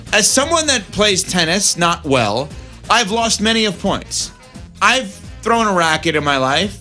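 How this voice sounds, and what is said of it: New York accent. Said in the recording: “I can't say it, I have a New York accent with that.”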